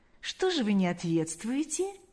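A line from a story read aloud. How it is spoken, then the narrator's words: Soft question. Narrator (Russian): мягко спросил Паисий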